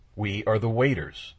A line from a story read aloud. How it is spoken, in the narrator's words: he said